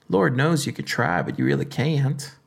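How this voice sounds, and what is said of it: Put-on Southern accent. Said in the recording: “That's my southern accent right there, ladies and gentlemen. No, I'm just kidding.”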